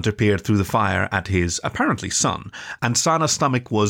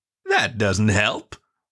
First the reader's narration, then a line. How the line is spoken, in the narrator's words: Mourner commented, very cheerfully